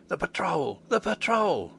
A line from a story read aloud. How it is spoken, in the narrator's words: hoarsely whispered the fellow